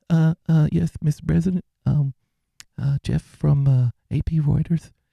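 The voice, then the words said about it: Timid, sheepish hesitant voice. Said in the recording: “in that very sheepish voice”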